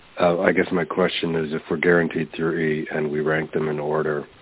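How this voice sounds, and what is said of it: Congested voice, not sounding normal. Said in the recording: “I have a bit of a cold, so my voice isn't what it normally is”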